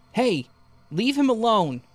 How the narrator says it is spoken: He started shouting

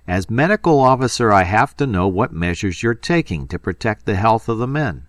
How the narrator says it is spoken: Kramer said loudly

